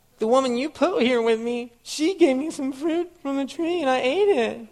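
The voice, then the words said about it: Whiny voice. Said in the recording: “in a whiny voice”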